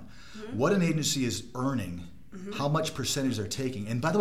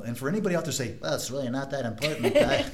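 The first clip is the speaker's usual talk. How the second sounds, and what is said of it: Nerdy character voice. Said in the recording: “nerd voice ... It's like the guy from Rudolph the Red-Nosed Reindeer that wants to be a dentist”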